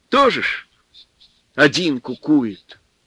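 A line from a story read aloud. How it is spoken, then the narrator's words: Mother's sigh. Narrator (Russian): Мать вздохнула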